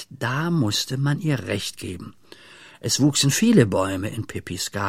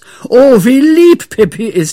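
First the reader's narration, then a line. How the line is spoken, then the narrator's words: Group shouting. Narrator (German): schrien sie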